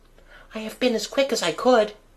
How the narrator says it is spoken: she panted

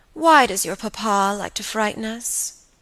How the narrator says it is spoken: said the pretty girl, with a sigh and a little shudder

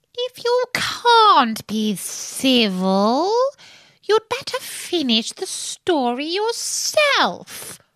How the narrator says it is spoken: the Dormouse sulkily remarked

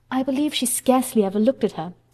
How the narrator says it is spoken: sighed Mrs

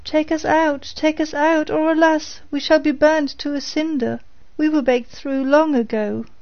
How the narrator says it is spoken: cried the loaves as before

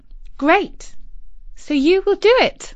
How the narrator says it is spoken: said Isis brightly

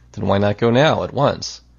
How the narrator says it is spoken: He sighed

